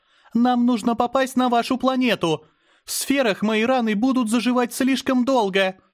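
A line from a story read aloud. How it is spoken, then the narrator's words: Shout. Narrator (Russian): выкрикнула Азара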